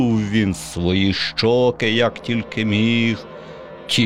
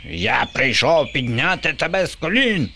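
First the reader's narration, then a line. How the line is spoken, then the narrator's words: Shrieking. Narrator (Ukrainian): верещав Боба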